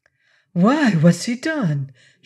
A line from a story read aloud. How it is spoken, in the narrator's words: she demanded rather shakily